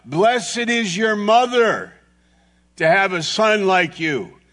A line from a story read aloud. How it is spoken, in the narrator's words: the woman who yells out